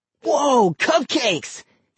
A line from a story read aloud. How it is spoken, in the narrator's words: he cried